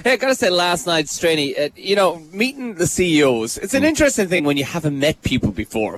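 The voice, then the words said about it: Irish accent. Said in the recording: “heard my accent. I said, oh, well, I'm actually from a little village in Ireland called Milltown ... you sound like you've got an accent”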